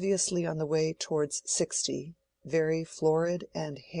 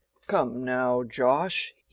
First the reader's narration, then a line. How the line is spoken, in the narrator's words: he was saying in a full, rumbling tone